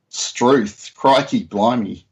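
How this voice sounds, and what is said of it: Exaggerated Australian accent. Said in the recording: “in Australia... you have to really overemphasize your accent”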